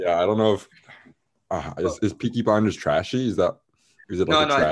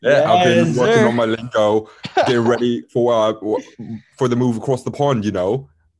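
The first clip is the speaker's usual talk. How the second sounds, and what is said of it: Bad put-on Birmingham accent. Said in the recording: “that's the worst Birmingham accent I've ever heard”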